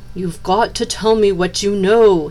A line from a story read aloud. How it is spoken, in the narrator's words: cried